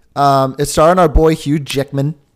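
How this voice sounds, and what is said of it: Put-on Australian accent. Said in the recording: “That was my Australian accent.”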